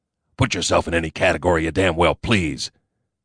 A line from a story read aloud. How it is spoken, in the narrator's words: grumbled